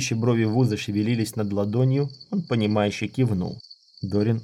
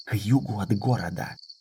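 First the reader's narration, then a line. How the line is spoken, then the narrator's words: Whispering. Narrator (Russian): шепнул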